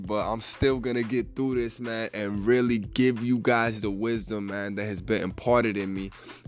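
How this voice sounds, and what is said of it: Stuffy, slightly raspy voice. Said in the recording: “I sound a bit stuffy. ... I was a bit stuffy this morning and my voice sounds a little bit raspy”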